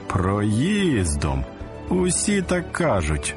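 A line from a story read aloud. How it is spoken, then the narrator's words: Mocking laugh. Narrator (Ukrainian): засміявся глумливо другий син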